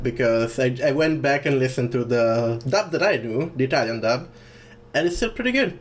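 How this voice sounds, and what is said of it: Non-native English accent. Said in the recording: “if you haven't noticed from my like not Tickerall accent, I didn't live in English-speaking countries when I was a kid”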